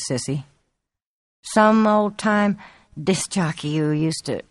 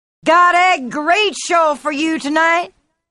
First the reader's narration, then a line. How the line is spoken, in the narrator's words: the MC was shouting enthusiastically into his mic